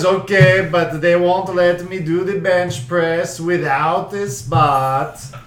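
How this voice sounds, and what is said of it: Put-on Italian accent. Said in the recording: “The one accent you did was actually fucking Italian.”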